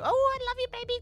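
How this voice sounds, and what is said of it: Baby voice. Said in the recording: “talking in a baby voice”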